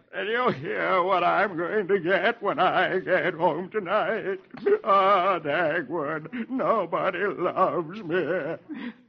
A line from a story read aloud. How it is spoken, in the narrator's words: Dithers sobs